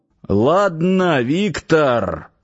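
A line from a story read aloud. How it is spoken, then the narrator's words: Loud, calmer, persuasive. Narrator (Russian): по-прежнему громко, но уже более спокойно, словно уговаривая, заговорил начальник гарнизона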